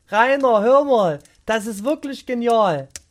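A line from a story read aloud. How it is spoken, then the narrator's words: Calling out. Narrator (German): rief sie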